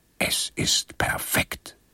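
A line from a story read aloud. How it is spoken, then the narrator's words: Whisper. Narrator (German): flüsterte er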